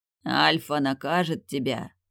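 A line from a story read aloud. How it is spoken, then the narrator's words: Growled reply. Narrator (Russian): прорычал он в ответ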